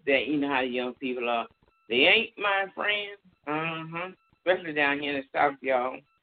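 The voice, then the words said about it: Southern American twang. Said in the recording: “God, I just hear this southern twang.”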